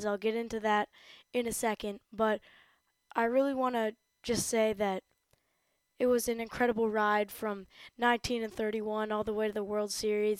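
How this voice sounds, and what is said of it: Slightly raspy voice. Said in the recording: “I have a little bit of a raspy voice because I was screaming”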